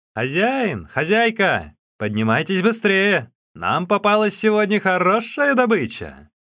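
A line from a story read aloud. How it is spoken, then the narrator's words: Shouting. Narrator (Russian): Люди, которые привели Усуна и забрали его узел, крикнули кому-то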